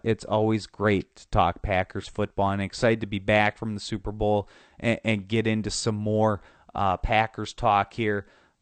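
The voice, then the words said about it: Nasal, congested voice. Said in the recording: “my nasally voice here as I have a cold ... considering my condition”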